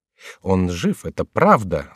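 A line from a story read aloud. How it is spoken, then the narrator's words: Plain. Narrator (Russian): сказал он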